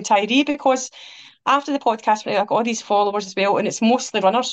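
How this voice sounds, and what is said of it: Rough Glasgow accent, fast speech. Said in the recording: “this really rough Glasgow accent. I talk really fast.”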